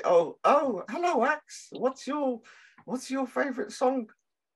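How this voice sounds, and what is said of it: Put-on unidentified accent. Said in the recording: “I don't know what accent that was, but ... it's a good accent. It's a good accent.”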